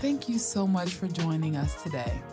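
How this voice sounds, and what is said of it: Polished customer service voice. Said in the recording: “customer service voice”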